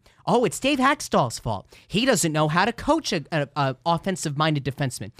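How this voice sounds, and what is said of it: Imitates another person's voice. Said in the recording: “that impersonation”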